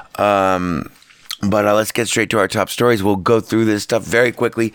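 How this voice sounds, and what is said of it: Hoarse, failing voice. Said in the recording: “If you can't tell, I'm losing my voice. ... depending on if my voice holds out”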